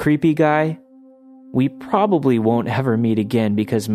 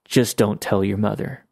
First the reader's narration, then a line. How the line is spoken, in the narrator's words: my dad very calmly said